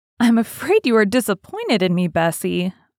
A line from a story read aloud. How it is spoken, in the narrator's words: I said this laughing